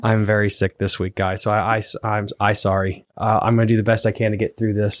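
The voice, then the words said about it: Hoarse, scratchy sick voice. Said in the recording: “my voice seems a little, uh, is it called hoarse? Yeah, a little hoarse. ... Scratchy. ... Nails on a chalkboard. ... He has one hell of a cold.”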